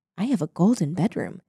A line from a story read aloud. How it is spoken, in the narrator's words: said softly to himself